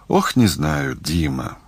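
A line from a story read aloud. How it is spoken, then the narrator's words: Sad sigh. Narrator (Russian): грустно вздохнула Татьяна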